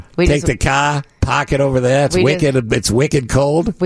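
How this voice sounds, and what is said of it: Put-on Boston accent. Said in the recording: “Boston. ... I love the Boston accent.”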